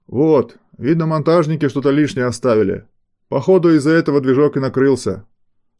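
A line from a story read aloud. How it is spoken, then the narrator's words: Shouted. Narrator (Russian): выкрикнул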